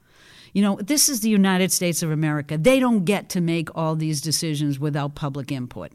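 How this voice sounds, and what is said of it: Strong regional accent. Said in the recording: “your accent remains significantly stronger than mine”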